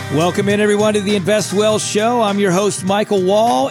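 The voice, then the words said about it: Hoarse, worn-out voice. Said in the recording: “it sounds a little bit like my voice is sketchy ... Yes, my voice is sketchy. ... I'm losing it. ... yelling at the kids or we're just yelling out in the yard”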